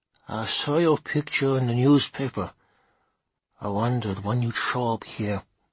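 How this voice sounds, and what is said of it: Thick Slovene accent in English. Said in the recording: “her English underpinned with a thick, Slovene accent”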